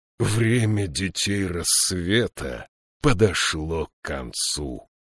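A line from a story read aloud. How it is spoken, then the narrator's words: Hoarse rasp. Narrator (Russian): прохрипел он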